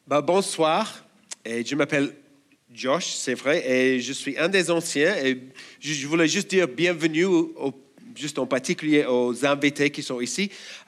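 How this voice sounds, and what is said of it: Australian accent speaking French. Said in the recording (French): “Je suis australien, et si vous avez du mal à comprendre mon accent”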